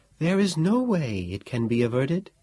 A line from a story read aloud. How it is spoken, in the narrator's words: the Sibyl asked in that melodious voice of hers which we treasure so